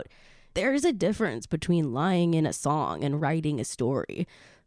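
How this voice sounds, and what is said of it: Imitates another person's voice. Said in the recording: “my best Billie Eilish impression”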